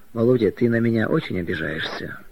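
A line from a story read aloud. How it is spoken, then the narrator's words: Very tender, pleading question. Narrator (Russian): Маргарита очень ласково, умоляюще спросила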